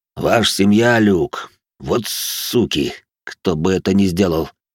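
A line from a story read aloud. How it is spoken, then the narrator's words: Deep booming bass. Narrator (Russian): пробасил здоровяк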